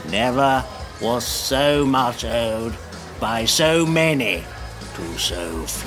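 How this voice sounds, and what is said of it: Winston Churchill impression, froggy voice. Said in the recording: “Winston Churchill ... I thought it was like a frog monster guy”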